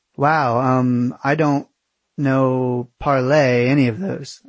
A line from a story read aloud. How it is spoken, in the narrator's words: I stammered out